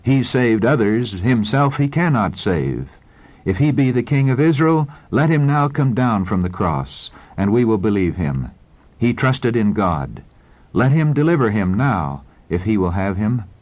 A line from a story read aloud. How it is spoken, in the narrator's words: in satanic exultation, they exclaimed